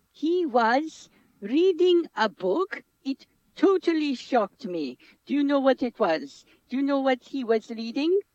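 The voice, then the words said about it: Slovenian-accented English. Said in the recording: “I don't know what radio is like in Slovenia ... It is my stupid accent”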